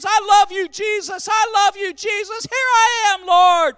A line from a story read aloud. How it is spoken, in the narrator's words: The second woman screams